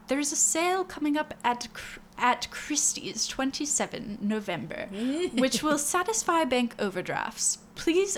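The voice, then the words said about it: Put-on posh British accent. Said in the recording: “read it in a British accent? ... A posh British accent? ... I'll try.”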